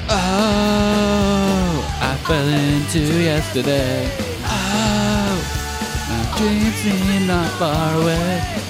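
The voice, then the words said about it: Imitates another person's singing voice. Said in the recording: “my Davey Havok impression”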